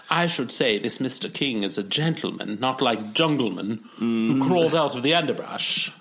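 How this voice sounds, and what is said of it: Put-on accent, done well. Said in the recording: “You're doing great with that accent”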